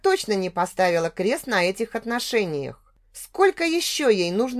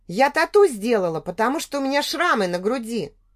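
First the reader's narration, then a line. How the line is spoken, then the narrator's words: Almost angry. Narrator (Russian): проговорила почти зло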